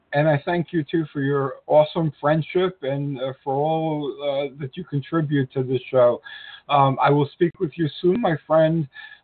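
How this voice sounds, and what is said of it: Raspy voice from a cold. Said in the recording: “Forgive my raspy voice today ... It's a terrible time to get a cold”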